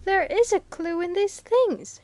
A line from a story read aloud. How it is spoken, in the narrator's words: she exclaimed